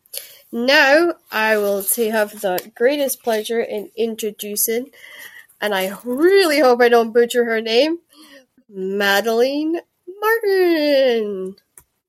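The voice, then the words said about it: Scottish accent. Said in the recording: “you said it with a Scottish accent”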